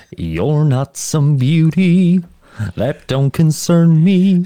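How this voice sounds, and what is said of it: Put-on Southern American accent. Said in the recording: “I don't have family in the South ... it does sound like I am doing it in a parody ... when I hear that accent, it's just Monty”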